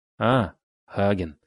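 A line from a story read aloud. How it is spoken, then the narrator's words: Host laughing heartily. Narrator (Russian): расхохотался хозяин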